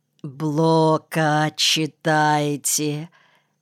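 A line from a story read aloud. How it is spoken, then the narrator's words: Mocking, syllable by syllable. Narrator (Russian): Чуть не по слогам, с издевательской интонацией процедила она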